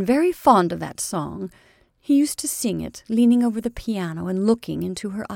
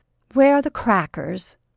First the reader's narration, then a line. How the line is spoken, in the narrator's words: asked Jane stiffly